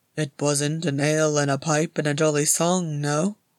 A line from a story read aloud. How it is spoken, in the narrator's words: said Gimli dryly